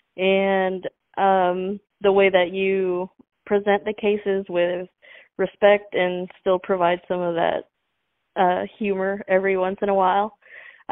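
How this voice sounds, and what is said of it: Slight Texas accent. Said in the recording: “I could hear a little bit of that Texas accent”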